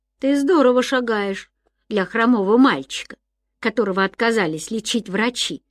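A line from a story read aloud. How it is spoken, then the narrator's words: Plain. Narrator (Russian): сказал Ян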